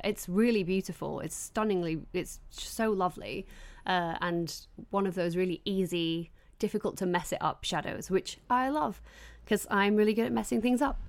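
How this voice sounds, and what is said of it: Croaky voice. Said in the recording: “I sound croaky ... allergies”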